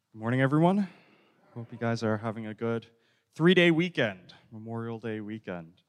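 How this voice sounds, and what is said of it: Strained, slightly off-sounding voice. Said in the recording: “my voice sounds a little crazy. I was out yesterday with my cousin doing karaoke.”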